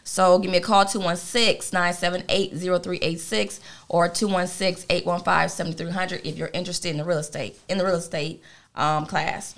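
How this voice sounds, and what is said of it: Speaking very fast. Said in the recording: “you're going to have to repeat that and slow that down a little bit... Slow it down... because I'm talking too fast”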